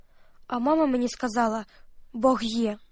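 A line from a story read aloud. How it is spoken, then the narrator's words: Whispered to herself. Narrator (Ukrainian): Таня сама собі прошепотіла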